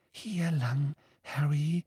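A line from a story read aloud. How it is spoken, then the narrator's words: Breathy whisper. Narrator (German): hauchte Luna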